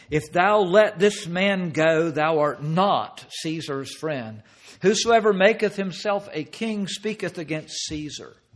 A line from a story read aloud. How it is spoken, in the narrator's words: cried out, saying